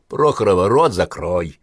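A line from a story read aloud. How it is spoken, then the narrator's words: Sharp shout. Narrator (Russian): прикрикнула на нее Наталья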